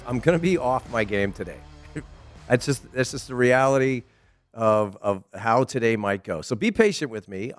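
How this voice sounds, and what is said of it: Slightly raspy voice. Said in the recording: “If you could tell it in my voice, I do a little raspiness there.”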